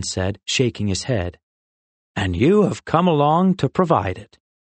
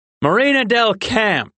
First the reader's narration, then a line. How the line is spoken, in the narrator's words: Rin called out